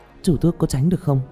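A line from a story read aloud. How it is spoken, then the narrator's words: Frightened. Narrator (Vietnamese): Tạ Vũ Tình sợ hãi nói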